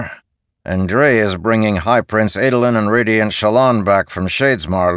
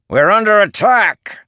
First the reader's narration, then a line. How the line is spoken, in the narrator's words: Scar bellowed